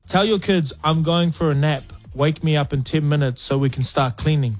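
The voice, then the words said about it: New Zealand accent. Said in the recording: “It's a Kiwi podcast, so that will explain the accents.”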